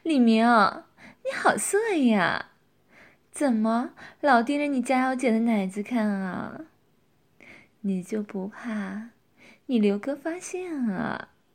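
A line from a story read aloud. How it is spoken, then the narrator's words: Tipsy, laughing teasingly. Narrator (Chinese): 佳瑶喝了酒也放得开了，笑着说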